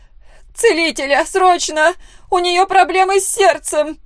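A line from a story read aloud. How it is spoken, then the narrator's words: Loud scream, mother. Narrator (Russian): Ее мама громко закричала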